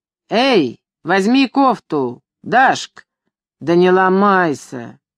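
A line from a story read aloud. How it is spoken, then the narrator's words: Loud male voice. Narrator (Russian): казак громко произнес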